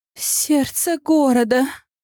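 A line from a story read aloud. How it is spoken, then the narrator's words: Moaning. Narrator (Russian): простонала я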